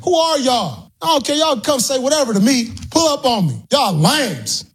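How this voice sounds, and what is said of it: Upset, angry ranting voice. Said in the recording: “He sounds really upset. He sounds really upset. ... I can't believe he's that mad about it.”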